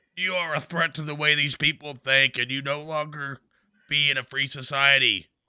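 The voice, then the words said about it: Alien overlord character voice. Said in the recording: “I sound like an alien overlord”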